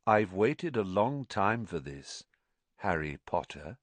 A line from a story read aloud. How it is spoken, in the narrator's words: said Riddle